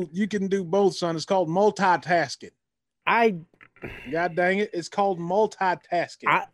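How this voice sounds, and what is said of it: Put-on country accent. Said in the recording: “What is this country accent now?”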